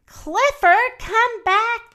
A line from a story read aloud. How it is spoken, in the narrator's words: they shouted